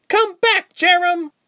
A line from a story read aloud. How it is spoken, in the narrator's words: Reshma cried